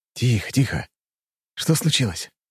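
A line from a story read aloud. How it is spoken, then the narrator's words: Soothing. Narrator (Russian): Я постарался успокоить ее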